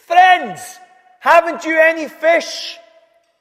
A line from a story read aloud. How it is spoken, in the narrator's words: Someone on the beach shouted to them, saying